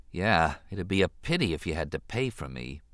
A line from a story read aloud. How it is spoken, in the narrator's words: he said softly